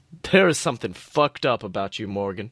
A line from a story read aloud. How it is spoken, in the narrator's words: he growled